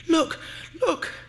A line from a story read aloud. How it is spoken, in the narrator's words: she cried